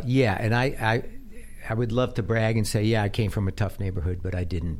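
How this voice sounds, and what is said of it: Slight Bronx New York accent. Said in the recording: “You could tell. He got a little accent. ... Still there. ... In the Bronx ... You could tell a Bronx.”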